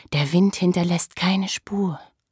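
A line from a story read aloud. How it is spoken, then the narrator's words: Low murmur. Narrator (German): raunte sie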